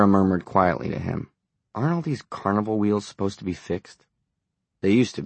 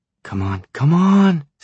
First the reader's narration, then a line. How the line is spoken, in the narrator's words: Sarah cried